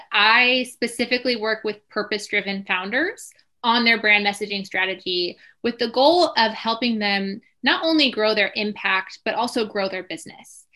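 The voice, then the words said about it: American accent. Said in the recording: “as you can tell by my accent, I am based in the US”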